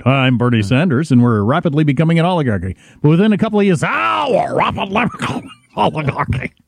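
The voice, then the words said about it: Bernie Sanders impression, northeastern accent. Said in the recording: “he had the phlegm in the back of his throat ... with his delightful northeastern accent ... Lobsterman accent”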